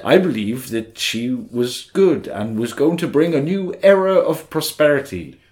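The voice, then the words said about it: Anthony Hopkins robot impression. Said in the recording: “I was segueing into the robot out of Rebel Moon ... a good Anthony Hopkins robot at Rebel Moon impersonation. I'm not there yet.”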